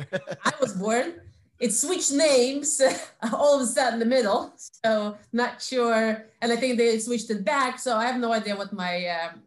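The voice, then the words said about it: Russian accent. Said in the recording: “the accent will be betraying your Russian or FSU background”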